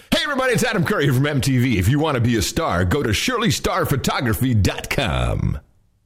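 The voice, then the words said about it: MTV announcer voice. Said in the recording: “in his MTV voice”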